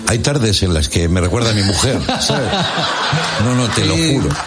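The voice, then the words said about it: Put-on Argentine Spanish accent. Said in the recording (Spanish): “Segundo programa en Argentina. ... Te sale el acento ... Me sale el acento, che”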